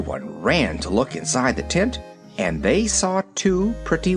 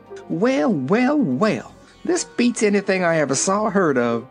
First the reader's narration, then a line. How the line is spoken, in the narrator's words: exclaimed Aunt Em